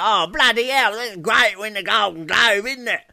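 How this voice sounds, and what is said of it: Imitated Cockney accent. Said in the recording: “how kind of Cockney Gary Oldman is”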